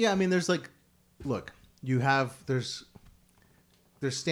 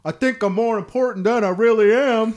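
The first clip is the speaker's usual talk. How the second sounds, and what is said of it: Bad impression of another person's voice. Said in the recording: “you're laughing at me doing a bad impression”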